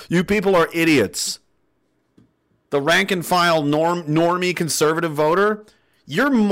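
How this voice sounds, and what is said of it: Usual voice. Nothing is said of it.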